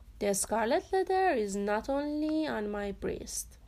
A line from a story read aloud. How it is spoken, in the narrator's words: said